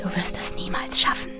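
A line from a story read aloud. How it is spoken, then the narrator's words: Voice whispering in ear. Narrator (German): flüsterte eine Stimme in mein Ohr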